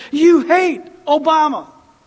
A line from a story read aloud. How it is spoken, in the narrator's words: Democrats yelled at me and said